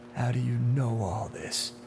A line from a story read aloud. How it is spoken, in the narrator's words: Duane asked, his voice little more than a murmur